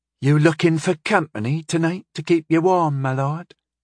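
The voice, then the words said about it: Saucy young woman's brogue. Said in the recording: “she asked in a saucy Wilderlands brogue.”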